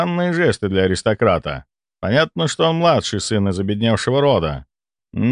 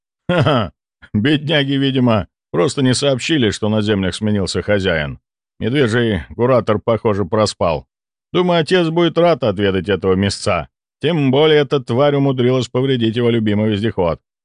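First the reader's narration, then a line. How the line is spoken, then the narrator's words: Chuckling. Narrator (Russian): хохотнул Кэмпбелл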